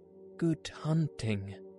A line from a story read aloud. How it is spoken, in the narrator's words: cried Baloo